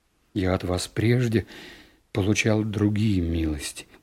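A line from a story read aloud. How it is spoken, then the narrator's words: Muttering. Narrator (Russian): пробормотал я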